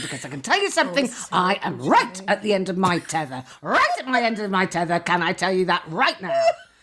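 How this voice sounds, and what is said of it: Imitates another person's voice. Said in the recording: “such a good impression.”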